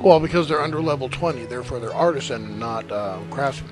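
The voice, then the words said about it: Hoarse, croaky voice. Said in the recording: “My voice is suffering tonight ... You came in sounding like a frog.”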